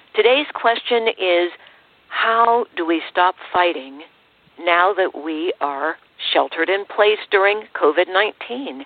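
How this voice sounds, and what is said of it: Hoarse voice. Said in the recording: “I've got a hoarse throat.”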